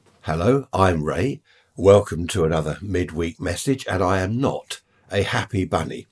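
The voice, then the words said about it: Congested voice from a cold. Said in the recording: “I've got a bit of a cold.”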